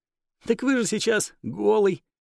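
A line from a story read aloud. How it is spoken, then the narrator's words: Embarrassed giggling maid. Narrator (Russian): залившись румянцем, хихикнула служанка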